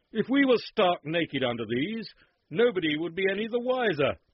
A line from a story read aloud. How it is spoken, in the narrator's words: the consort suddenly cried